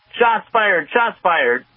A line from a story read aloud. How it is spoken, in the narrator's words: yelling